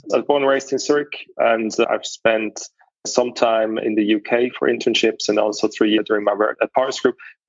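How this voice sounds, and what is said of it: Swiss accent in English. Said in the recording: “your accent ... you were born and raised in Switzerland?”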